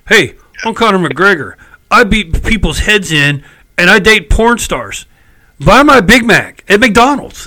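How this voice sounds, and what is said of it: Very bad imitation of another person. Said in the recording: “worst impression I've ever heard in my life”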